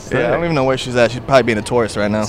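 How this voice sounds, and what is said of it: Thick New York accent. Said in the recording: “I know you have an accent. ... Oh, it's so thick.”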